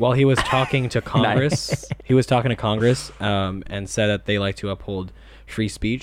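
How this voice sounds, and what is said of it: Usual voice. Nothing is said of it.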